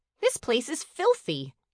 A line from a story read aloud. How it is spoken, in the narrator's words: Melody snapped